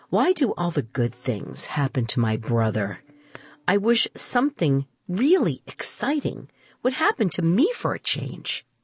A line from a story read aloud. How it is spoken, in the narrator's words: muttering